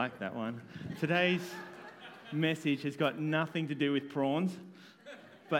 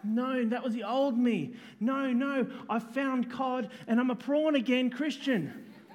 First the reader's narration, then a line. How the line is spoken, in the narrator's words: Justin cried back